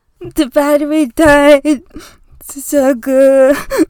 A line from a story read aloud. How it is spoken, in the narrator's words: with snot on his face and wails